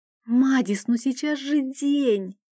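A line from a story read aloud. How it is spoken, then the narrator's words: Uncertain hiss. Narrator (Russian): неуверенно зашипела я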